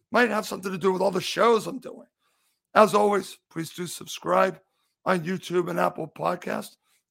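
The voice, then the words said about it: Strained, fading voice. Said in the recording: “I am obviously starting to lose my voice.”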